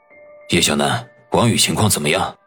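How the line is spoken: Low grave question. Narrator (Chinese): 后者沉声的问道

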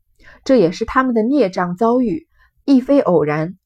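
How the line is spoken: Sighing. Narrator (Chinese): 雨村亦叹道

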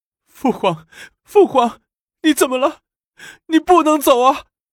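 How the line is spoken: Wailing, sobbing. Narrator (Chinese): 李治大哭起来

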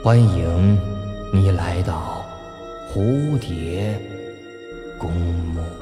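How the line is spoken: Soft whisper from below. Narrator (Chinese): 一个声音自地底传来，伏在他的耳边，轻声说道

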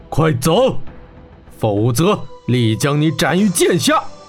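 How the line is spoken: Angry roar. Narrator (Chinese): 铁虎怒吼道

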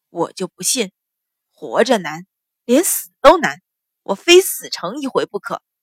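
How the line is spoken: Grim, fierce determination. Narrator (Chinese): 书生咬了咬牙，似乎发狠一样，说道

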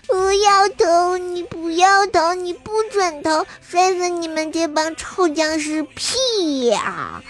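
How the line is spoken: Crying and shouting. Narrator (Chinese): 他就哭着喊着说

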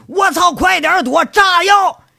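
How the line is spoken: Sudden shout. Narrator (Chinese): 院子里猛地有人喊了一声

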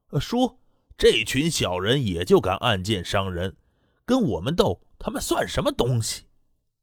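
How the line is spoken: Loud laughing. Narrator (Chinese): 滕青虎更是大声笑道

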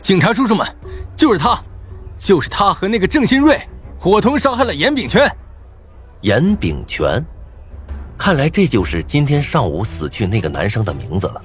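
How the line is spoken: Loud accusation. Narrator (Chinese): 韩立涛大声说道

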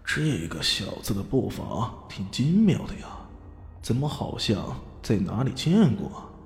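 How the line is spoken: Puzzled inner muttering. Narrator (Chinese): 吴堡主微微一愣，心里嘀咕

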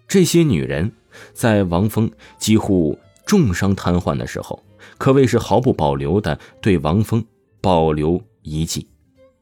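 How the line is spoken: Serious. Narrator (Chinese): 陈娇娇……丝毫不开玩笑的出声道

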